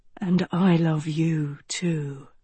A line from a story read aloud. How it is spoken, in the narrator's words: he breathed